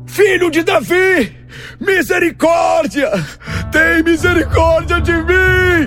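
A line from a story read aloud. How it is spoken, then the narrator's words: Shouting even louder. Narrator (Portuguese): ele gritava ainda mais alto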